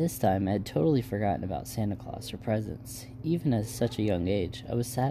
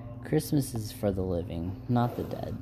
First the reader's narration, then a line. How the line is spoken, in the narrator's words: she said